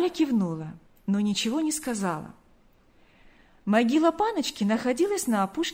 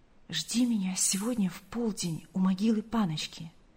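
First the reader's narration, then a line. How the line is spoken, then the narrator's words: Quick whisper. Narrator (Russian): Павел успел прошептать Гале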